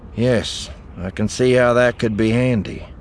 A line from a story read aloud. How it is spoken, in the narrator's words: Eli said dryly